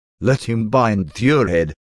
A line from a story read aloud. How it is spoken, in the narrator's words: suggested a beautiful woman, laughing